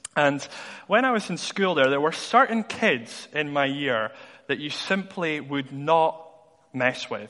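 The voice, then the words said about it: Mild Dundee Scottish accent. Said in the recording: “I'm actually originally from Dundee. I don't know if you can tell by the accent. It's kind of gone a little bit since I've been in Edinburgh.”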